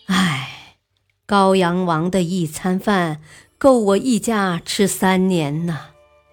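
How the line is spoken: Sighing. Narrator (Chinese): 尚书李崇常跟朋友们叹息

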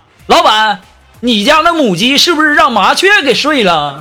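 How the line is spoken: Hot-tempered shout. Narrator (Chinese): 苏木一贯是暴脾气呀，立刻就喊了

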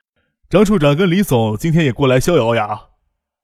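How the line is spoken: Hasty, smiling greeting. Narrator (Chinese): 叶向天赶忙站起来，笑着招呼

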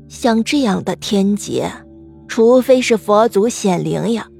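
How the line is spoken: Sad lament. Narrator (Chinese): 面对着越来越多生病的人、感染瘟疫的人，忠良也只能伤心的感叹道

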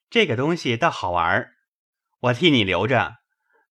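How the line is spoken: Awkward embarrassed laugh. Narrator (Chinese): 宝玉不觉心里没意思起来，瞅着黛玉讪笑道

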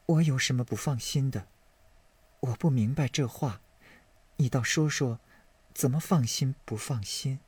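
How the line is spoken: Sighing question. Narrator (Chinese): 宝玉叹了一口气，问道

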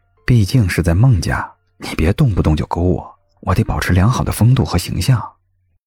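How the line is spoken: Whisper in ear. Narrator (Chinese): 谢景亭……压低声音在孟婉婉的耳边说道

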